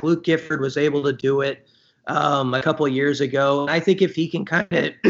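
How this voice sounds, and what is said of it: Voice giving out, strained. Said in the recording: “my voice is going on me ... we're hearing that”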